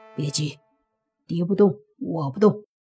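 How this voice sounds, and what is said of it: Quiet, hushed speech. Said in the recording (Chinese): “小声说”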